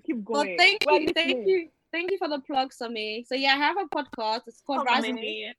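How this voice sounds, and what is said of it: British accent. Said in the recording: “You have a British accent. Let's hear the British accent.”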